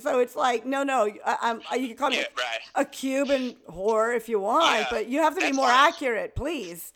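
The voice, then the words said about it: Miami accent. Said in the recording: “Miami talks like this. This is a Miami accent.”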